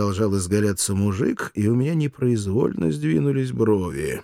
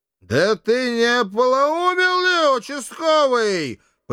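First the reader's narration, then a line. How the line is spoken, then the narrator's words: Furious roar. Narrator (Russian): взревел ткач, бледнее и краснее попеременно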